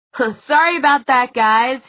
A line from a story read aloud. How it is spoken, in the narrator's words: he yelled